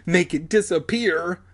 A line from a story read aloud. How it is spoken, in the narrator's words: Alex pleaded